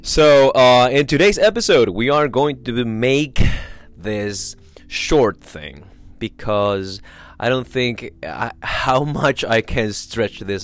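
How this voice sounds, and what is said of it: Sick, flu-affected voice. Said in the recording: “as you can tell from my voice ... Because of this flu”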